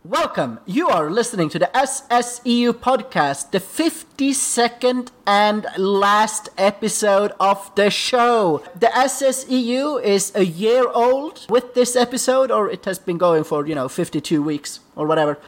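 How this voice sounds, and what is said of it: Speaks with a noticeable accent. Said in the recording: “your host, with an accent ... had an accent ... the host with the accent”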